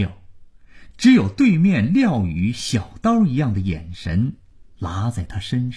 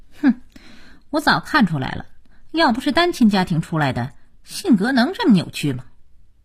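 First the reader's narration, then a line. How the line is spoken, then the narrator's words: Cold sneer. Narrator (Chinese): 佳期冷冷一笑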